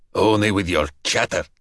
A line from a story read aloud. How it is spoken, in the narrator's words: Dragozani grunted